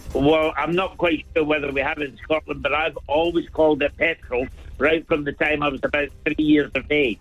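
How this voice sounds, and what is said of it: Scottish Glasgow accent. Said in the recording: “your own Dublin sort of, you know, accent ... Excuse me, Glasgow, if you don't mind. ... he's Scottish”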